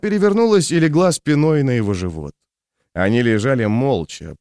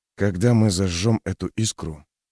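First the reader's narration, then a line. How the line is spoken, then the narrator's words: Loud whisper in ear. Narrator (Russian): прошептал в ухо громким шепотом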